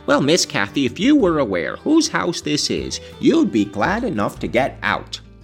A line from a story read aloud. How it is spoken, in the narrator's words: I cried in great irritation